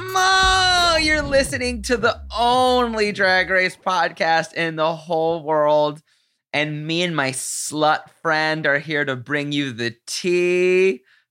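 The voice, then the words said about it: Australian accent. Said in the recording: “enjoy me accent ... Want me speaking Aussie?”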